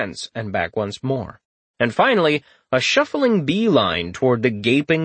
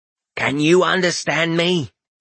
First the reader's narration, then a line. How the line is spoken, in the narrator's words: he croaked up at it